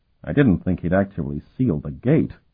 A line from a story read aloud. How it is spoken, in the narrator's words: Carlton muttered